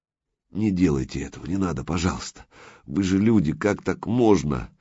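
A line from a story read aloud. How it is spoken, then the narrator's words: Very quiet muffled mumble. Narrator (Russian): Совсем тихонько бормотал, потому что рот не открыть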